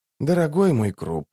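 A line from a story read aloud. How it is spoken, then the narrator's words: Sighing. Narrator (Russian): вздохнул Барук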